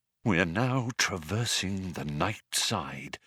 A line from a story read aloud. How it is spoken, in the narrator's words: he said in a hushed voice